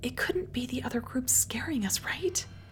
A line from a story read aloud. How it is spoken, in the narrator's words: Bailey whispered to Hooper